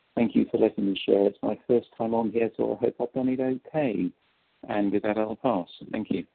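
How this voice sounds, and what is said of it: Noticeable accent. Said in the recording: “We love your accent”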